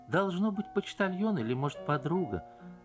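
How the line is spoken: Plain. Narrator (Russian): сказала певица

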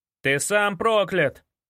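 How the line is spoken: Shout from behind. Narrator (Russian): закричал он за моей спиной

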